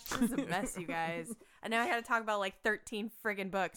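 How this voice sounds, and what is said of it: Rough, worn-out voice. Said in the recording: “My voice is still trash”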